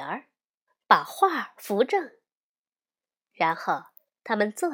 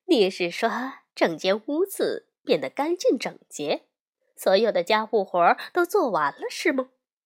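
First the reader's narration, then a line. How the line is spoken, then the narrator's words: Smiling. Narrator (Chinese): 熊妈妈笑着说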